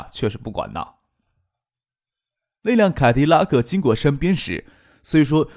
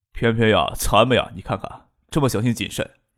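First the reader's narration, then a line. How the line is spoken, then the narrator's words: Smirking. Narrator (Chinese): 叶剑兵努嘴笑着说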